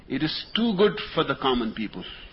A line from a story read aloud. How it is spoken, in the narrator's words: Lady Jane exclaimed indignantly